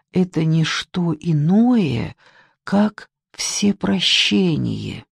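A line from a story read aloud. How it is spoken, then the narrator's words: Quiet, as if to himself. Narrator (Russian): тихо, словно говорил сам с собой, сказал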